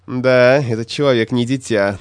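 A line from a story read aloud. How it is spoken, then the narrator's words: Mocking. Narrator (Russian): насмешливо сказал Бомгран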